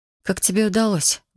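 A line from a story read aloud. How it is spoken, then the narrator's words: Breathless exhale. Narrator (Russian): выдохнула я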